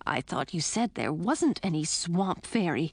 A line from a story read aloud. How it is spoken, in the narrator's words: Edric whispered